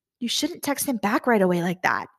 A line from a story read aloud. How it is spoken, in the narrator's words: I whispered